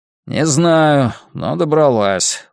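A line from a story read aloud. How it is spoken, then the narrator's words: Tired reply. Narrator (Russian): устало отвечает Генри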